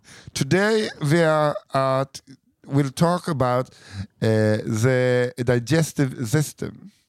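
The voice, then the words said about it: Put-on German accent in English. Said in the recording (Swedish): “Helga kan med fördel läsas med tysk brytning.”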